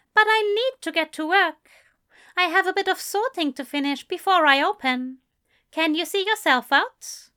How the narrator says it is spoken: He spoke calmly, not even a hint of tension in his tone

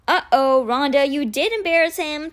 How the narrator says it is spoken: Ty chirped

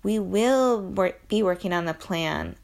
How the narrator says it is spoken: I said

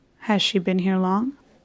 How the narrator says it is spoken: asked Stepan Arkadyevich

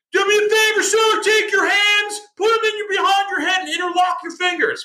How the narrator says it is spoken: yelling

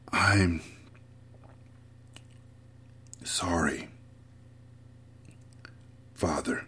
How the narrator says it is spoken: he whispered

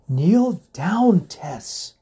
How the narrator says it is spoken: Lady Wellington exclaimed

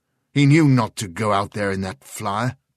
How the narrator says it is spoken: snapped Sheridan

